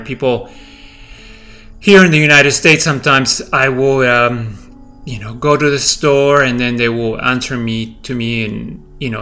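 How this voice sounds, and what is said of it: Non-native English accent. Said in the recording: “I don't speak English to the perfection with no accent”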